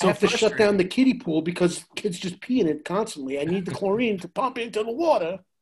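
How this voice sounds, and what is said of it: New York accent. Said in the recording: “I have my normal New York accent”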